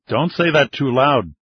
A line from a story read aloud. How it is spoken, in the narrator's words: Chavez chuckled